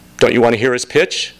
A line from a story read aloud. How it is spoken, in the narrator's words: Amanda said